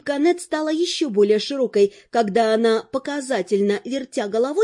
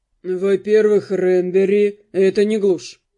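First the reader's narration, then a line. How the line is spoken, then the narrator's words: Calm response. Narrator (Russian): спокойно отозвался Руперт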